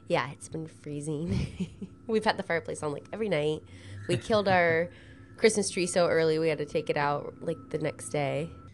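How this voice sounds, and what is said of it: Sick, congested voice from a cold. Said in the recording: “Estoy enferma... I'm just a little sick. I'm getting over a cold... that's why my voice sounds like this. You might hear a little cough”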